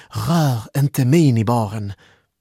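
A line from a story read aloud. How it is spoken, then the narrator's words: Exclaimed. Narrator (Swedish): utbrast Malin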